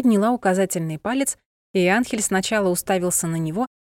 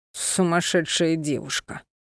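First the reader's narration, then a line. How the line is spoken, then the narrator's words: Moaning. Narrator (Russian): простонал он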